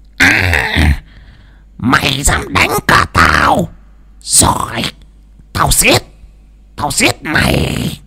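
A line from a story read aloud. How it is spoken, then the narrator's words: Hissing. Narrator (Vietnamese): Bà Phiên bất ngờ trợn ngược mắt lên mà rít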